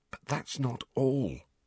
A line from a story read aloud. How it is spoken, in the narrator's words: said Harry, in a voice only a little above a whisper